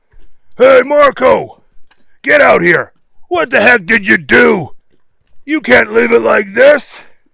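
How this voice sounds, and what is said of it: Put-on character voice. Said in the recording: “put on a voice.”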